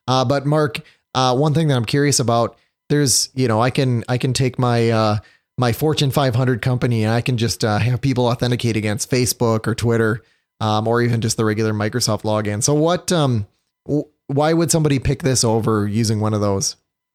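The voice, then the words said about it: Hoarse, failing voice from cold. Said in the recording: “thanks to my cold right now, my voice is starting to fail me”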